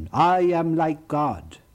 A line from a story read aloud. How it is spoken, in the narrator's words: this angel, Lucifer, the brightest creature next to God, cried out in heaven